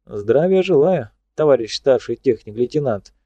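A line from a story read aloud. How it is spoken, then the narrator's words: Cheerful. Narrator (Russian): бодро сказал он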